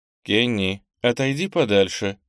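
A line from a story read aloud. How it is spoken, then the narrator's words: Cold command. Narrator (Russian): холодно приказала Марианелла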